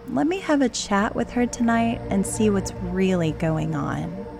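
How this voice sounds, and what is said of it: Reassuring, soothing voice. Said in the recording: “put on my best reassuring voice, the kind I use with my own mother”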